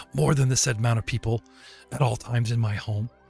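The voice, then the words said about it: Whispering. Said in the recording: “leans into you, whisper ... I was whispering to him”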